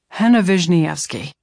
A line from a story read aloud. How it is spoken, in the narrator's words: Henry called impatiently